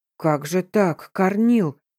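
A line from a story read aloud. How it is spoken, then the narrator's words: Worried mumble. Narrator (Russian): озабоченно буркнул Степашка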